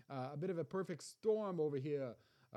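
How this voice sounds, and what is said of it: Half-hearted New York accent. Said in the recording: “That was more of a New York, not even a good New York accent, or not even a 100%. I didn't even give it 100%.”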